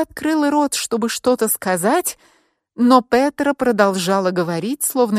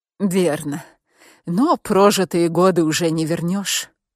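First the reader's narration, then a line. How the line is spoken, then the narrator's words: Sad. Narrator (Russian): печально проговорила Петра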